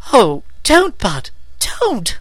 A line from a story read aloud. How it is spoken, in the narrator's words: pleaded Meg